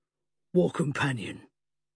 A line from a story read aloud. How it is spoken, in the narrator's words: Johnny Wallace growled